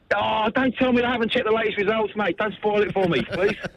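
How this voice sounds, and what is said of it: English accent. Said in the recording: “English accent.”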